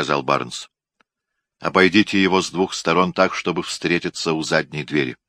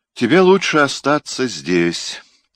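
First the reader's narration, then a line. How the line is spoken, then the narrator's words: Sigh. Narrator (Russian): вздохнул Барнс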